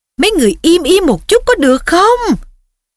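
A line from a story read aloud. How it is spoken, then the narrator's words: Yelling. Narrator (Vietnamese): Percy gào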